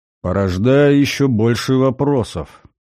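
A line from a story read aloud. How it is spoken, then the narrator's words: Gloomy remark. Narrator (Russian): мрачно заметил Гальдер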